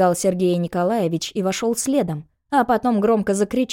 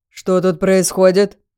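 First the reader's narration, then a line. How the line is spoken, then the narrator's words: Stern, threatening question. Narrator (Russian): Строго, даже угрожающе спросил он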